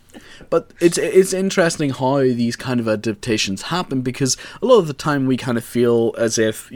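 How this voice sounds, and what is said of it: Northern Irish accent. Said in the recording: “the Northern Irish accent is already very testosterone.”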